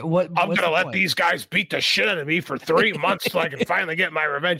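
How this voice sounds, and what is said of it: Imitates another person's voice. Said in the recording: “my Sammy impression”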